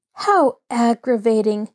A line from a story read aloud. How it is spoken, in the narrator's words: Nancy exclaimed